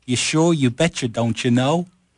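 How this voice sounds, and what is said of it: Mock Fargo Minnesota accent. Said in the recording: “I will lose my English accent and start speaking like an extra from Fargo ... That's close. That's good.”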